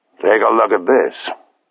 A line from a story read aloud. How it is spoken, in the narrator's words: said Dawson grimly